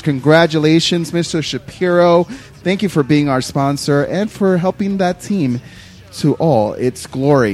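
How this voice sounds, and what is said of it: Yelling into the microphone. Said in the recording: “Why are you yelling? ... You're off the charts here.”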